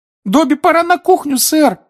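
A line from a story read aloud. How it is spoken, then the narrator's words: High squeak. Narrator (Russian): пропищал Добби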